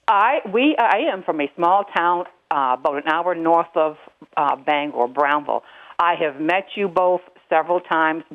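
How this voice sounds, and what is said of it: Maine accent. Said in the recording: “I detect a Maine accent.”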